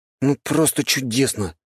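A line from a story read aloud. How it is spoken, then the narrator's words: Sullen grumbling. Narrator (Russian): угрюмо проворчал Вальхем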